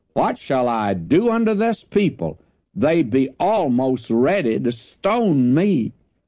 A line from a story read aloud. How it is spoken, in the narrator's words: And Moses cried unto the Lord, saying